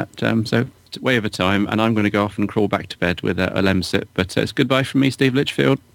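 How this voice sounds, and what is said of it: Worn-out, failing voice. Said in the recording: “My voice is gradually giving up. You can probably tell on the podcast.”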